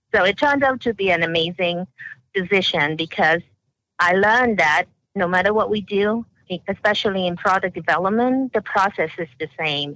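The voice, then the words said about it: Hong Kong English accent. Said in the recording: “I was born in Hong Kong, and so I spent my early years in Hong Kong, and that's why I have an accent, and a lot of it has to do with the Hong Kong system, with the British educational system”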